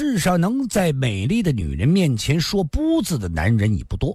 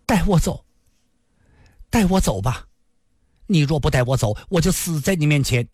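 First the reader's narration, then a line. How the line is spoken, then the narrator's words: Trembling voice. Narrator (Chinese): 林仙儿颤声地说道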